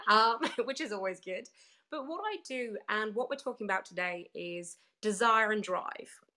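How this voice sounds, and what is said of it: British accent, slightly husky voice. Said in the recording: “you can tell from my back my accent everybody, I am British. I'm losing my voice slightly, so I'm a little bit even more husky”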